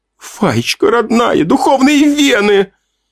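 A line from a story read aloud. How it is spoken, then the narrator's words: Nearly cried out. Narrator (Russian): Она почти вскрикнула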